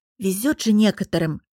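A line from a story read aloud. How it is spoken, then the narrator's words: Deliberately loud whisper. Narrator (Russian): намеренно громко прошептала одна из коллег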